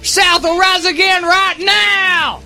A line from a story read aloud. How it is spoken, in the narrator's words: He probably yelled